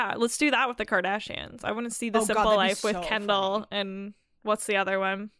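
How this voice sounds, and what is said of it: Usual voice. Nothing is said of it.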